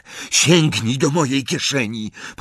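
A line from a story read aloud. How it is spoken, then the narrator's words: Plain. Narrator (Polish): powiedział Ron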